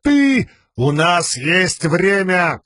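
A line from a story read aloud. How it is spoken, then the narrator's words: Shout. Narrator (Russian): крикнул Далинор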